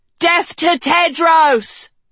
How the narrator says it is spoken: shouted one

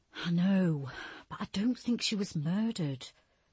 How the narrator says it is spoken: Julia said with a heavy sigh

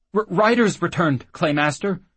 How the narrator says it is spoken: the slop stammered

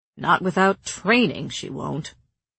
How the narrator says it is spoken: Cassian grumbled

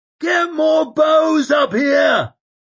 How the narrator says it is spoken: roared Koska

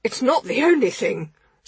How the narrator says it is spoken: spluttered Bomber

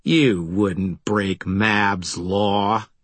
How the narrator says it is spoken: he sneered

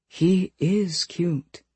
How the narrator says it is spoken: Fiona whispered

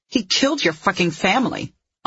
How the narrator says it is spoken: Anya snarled

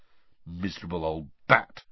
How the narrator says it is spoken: said Ron bitterly

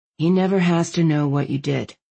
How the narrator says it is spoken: Landon said, his voice gentle

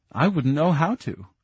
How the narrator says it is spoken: Sydney laughed

